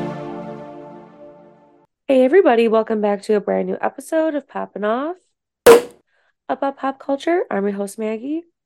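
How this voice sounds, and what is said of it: Congested, stuffy-nosed voice. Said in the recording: “I feel like I sound so sick... I feel like I sound miserable... you sound like you have like a really bad cold... My nose is just kind of stuffy and my throat is dry”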